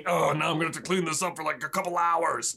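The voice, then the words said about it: Impression of Filch. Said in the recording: “Great Filch impression,”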